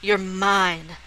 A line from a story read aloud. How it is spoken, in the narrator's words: Saskia said fiercely